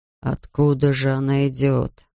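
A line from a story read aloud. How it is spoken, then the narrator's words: Muttering. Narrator (Russian): бормотал Бирн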